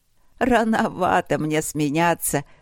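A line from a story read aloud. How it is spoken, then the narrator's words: Rich, warm laugh. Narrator (Russian): рассмеялась Иниди с густым, теплым смехом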